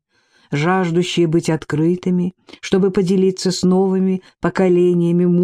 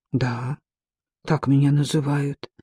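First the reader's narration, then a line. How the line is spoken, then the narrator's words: Mutter. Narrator (Russian): пробормотал Ци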